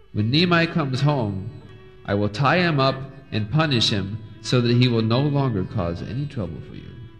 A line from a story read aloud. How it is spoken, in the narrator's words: Speaking kindly to satisfy them, told